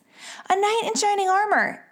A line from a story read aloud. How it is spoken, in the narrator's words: yelled Peyton